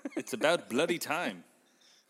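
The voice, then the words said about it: Put-on Australian accent. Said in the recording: “I can only do ... Australia. ... Australia. There you go.”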